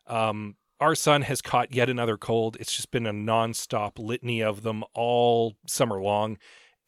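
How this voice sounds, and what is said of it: Slightly scratchy voice. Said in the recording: “my voice is a little scratchy ... I'm pretty sure I've caught whatever he has”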